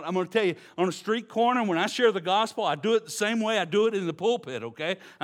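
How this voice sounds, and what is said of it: Texas accent. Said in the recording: “if you're from Texas and you go to a foreign country and they can understand you and you start talking, you will draw a crowd ... it's not just my accent”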